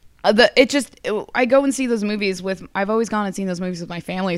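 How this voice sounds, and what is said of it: Breaking, strained, emotional voice. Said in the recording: “you're like crying right now. ... slightly emotional. Like my voice is all breaking because it's like Sunday at the con and I'm losing my voice.”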